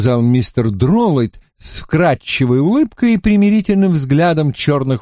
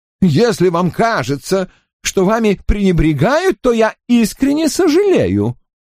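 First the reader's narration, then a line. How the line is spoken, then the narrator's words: Exclaim. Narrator (Russian): воскликнул Дроллайт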